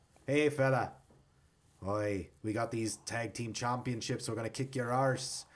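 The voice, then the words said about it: Put-on Irish accent. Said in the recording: “that's how you do an Irish accent”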